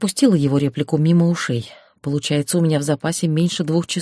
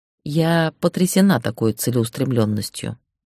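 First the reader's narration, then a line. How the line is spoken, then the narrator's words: Calm reply. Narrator (Russian): спокойно ответила я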